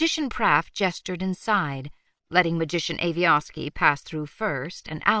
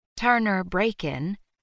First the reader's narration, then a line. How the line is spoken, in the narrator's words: Magician Praff sighed